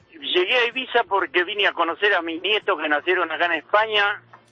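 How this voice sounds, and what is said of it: Non-Spanish, Argentine (Rosario) accent. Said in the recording (Spanish): “te noto un acento de que no eres español ... rosarino”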